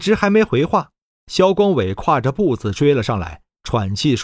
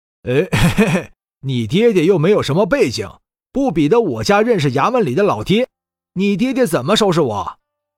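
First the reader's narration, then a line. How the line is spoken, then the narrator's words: Laughing. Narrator (Chinese): 萧光伟笑道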